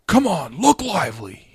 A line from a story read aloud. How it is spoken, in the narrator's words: he yelled